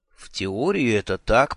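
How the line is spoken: Mutter. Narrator (Russian): пробормотал я

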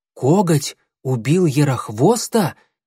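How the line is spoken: Exclaimed. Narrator (Russian): воскликнул Клубок

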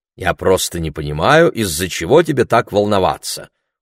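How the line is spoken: Cold reply. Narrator (Russian): холодно ответил Ларри

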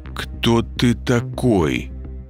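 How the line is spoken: Slow question. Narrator (Russian): Медленно спросил я

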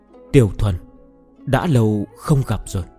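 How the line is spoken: Whisper. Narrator (Vietnamese): thì thào

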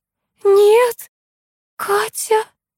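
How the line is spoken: Barely audible babble. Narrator (Russian): еле слышно пролепетала Элла

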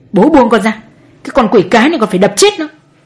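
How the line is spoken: Yelling. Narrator (Vietnamese): Chú Đại lại một lần nữa gào lên

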